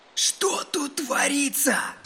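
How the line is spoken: Hoarse, nervous question. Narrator (Russian): спросил кто-то осипшим нервным голосом

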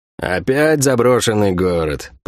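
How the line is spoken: Grumbled. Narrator (Russian): проворчал Сойка

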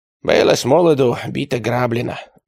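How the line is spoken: Sigh. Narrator (Russian): вздохнул богодул

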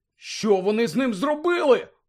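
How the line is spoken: Indignant exclamation. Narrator (Ukrainian): обурено вигукнув Седрик

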